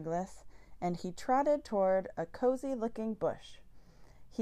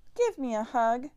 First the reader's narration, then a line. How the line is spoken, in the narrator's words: cried